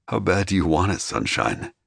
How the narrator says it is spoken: I growled

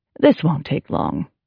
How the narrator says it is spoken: Goodwin said coolly

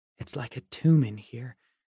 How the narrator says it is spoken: Nora whispered, and I thought I heard her teeth chatter

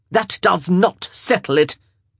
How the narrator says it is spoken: Araminta snapped

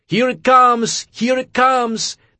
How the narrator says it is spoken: yelling at the top of his lungs

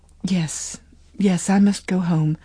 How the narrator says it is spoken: Lily murmured

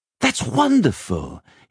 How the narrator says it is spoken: he exclaimed

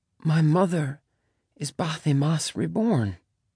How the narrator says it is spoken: she whispered

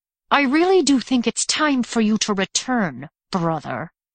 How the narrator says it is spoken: Ran said through clenched teeth

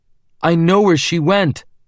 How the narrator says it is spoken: I said desperately

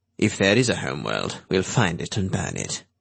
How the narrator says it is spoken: Drake said grimly

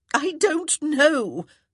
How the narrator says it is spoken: Violet very nearly wailed

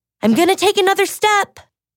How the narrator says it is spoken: the girl called out

